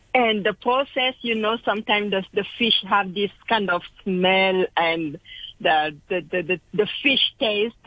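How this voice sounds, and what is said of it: French accent. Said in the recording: “you sound so nice when you speak with this French accent.”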